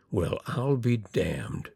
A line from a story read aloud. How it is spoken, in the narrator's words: Skiff Miller slowly and solemnly repeated